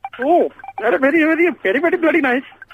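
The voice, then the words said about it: Comedy Indian accent. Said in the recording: “I believe that's what we call a comedy Indian accent. Well done.”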